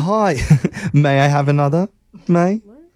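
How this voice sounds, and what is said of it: Bad put-on British accent. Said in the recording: “my absolute worst British accent”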